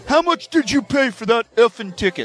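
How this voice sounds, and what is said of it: Imitates another person's voice. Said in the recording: “I don't do a very good impersonation of him”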